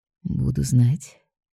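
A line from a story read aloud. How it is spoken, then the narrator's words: Quiet. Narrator (Russian): тихо произносит Ник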